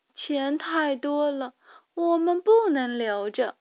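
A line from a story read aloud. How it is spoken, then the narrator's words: Sighing. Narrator (Chinese): 米莉叹了口气说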